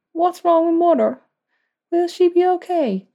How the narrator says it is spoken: asked, her voice quivering with a sniffle

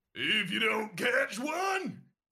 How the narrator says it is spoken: Coach Rex bellows

